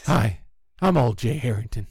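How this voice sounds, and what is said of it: Old man character voice. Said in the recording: “I'm the old guy now”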